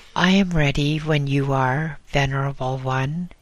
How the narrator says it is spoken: he said

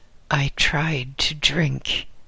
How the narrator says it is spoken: he mumbled

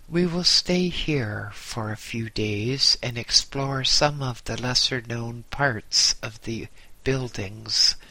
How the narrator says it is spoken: he said

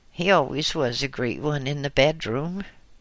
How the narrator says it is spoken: sadly as she muttered

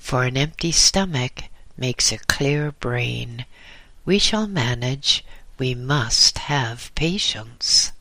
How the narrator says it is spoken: said the old hermit soothingly

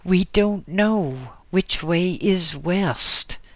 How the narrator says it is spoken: said the voice

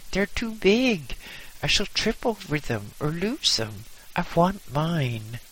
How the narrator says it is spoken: I exclaimed in panic

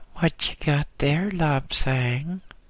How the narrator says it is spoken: piped a small voice

